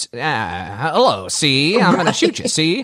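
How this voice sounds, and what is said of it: Old 1920s movie gangster accent. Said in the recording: “when you watch movies from the 20s ... where did that accent come from?”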